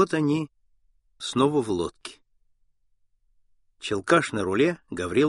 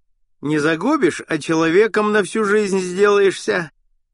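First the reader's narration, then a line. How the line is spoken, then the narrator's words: Merry laughter. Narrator (Russian): Челкаш весело хохотал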